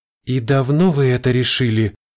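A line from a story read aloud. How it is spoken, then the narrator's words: Indignant shout. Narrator (Russian): возмущенно крикнул Цзиянь ему вслед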